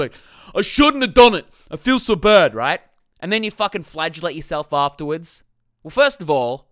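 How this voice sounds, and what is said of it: Usual voice. Nothing is said of it.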